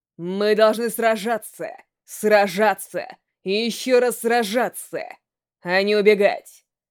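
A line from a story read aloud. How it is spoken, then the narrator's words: Loud declaration. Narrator (Russian): И громко заявил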